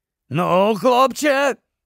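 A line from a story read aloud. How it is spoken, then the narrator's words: Werewolf's hoarse rasp. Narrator (Ukrainian): прохрипів вовкулака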